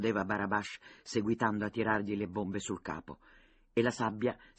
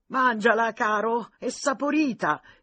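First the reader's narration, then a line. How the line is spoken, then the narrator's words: Excited breathless shouting. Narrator (Italian): gridava Barabash, sempre più eccitato, senza prender respiro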